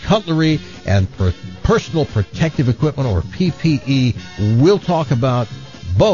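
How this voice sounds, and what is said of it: Usual voice. Nothing is said of it.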